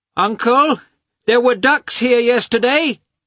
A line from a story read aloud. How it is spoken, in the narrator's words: he shouted, following Lievin from afar